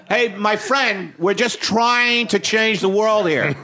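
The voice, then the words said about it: Imitates another person's drunk voice. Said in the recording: “Is that an impression of me? ... No, this is you drunk. I'm doing you drunk”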